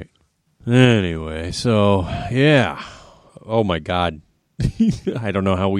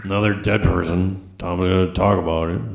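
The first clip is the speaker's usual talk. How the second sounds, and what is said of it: Imitates another person's voice. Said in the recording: “That's my Derek impression. Kind of sounds like Lindsay Lohan and Hank Pym from Ant-Man”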